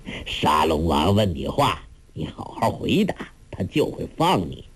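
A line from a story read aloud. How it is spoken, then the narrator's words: Laughing. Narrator (Chinese): 梁子翁 笑道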